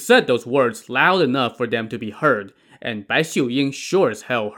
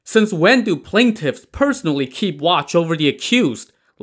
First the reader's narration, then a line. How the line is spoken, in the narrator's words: Lei Heng's mother shouted incredulously